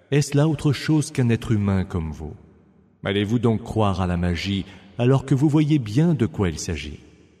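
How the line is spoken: Plain. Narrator (French): Il dit

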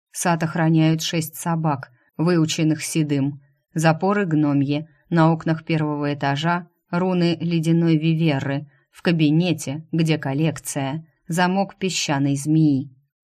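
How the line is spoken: Plain. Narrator (Russian): снова ответил Стриж

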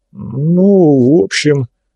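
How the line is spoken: Mumbled. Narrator (Russian): промямлил Влад

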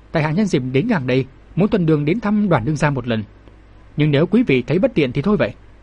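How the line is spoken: Smiling, polite. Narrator (Vietnamese): mỉm cười nói

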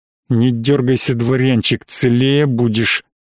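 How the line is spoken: Hissing in the ear. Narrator (Russian): зашипел мне в ухо незнакомец в маске

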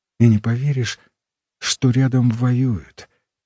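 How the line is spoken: Quiet. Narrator (Russian): тихо сказала Зиночка

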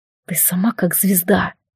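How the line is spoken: Whisper in ear, echoing waves. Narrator (Russian): прошептал ей Алистар на ухо, и волны вторили его голосу

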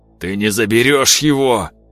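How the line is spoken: Hoarse rasp. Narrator (Russian): Прохрипел Климов

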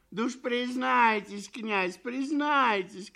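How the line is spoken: Crowd shouting. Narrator (Russian): кричали все

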